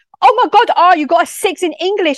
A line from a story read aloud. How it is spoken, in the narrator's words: shouted at him